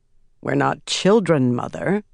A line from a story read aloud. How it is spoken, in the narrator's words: Swan said dryly